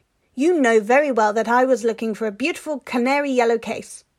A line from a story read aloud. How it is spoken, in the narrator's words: she snarled at him